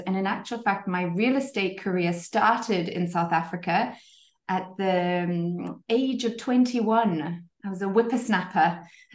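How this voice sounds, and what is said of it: Zimbabwean English accent. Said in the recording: “people might have already guessed from my accent, I am not French, nor am I English... actually Zimbabwean originally, born and bred Zimbabwean”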